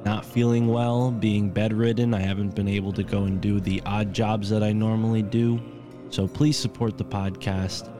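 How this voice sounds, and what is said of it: Congested voice. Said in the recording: “I don't know if you can hear it in my voice, but I'm a little congested”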